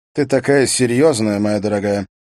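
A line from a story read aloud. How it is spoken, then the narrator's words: Calm. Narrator (Russian): произнес он спокойно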